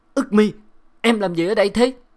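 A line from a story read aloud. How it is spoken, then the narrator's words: Shout. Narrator (Vietnamese): hét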